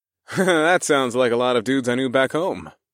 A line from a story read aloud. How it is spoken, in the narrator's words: I chuckled